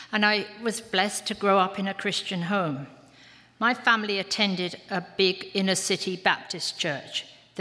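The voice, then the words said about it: English London accent. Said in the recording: “in case you don't know from my accent, I was born in England, in London.”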